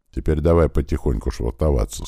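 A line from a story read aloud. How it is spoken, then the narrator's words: Quiet. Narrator (Russian): сказал тихо Серый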